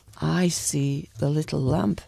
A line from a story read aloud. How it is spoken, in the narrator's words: she said softly